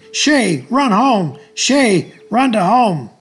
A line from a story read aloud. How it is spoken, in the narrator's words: the boys from both teams and those watching were screaming